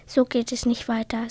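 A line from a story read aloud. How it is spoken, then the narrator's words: Plain. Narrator (German): sagte Feuerspucker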